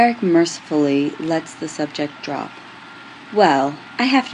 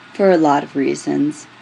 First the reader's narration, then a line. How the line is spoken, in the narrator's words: Julian says stiffly